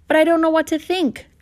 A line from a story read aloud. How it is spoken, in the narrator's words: Colleen exclaimed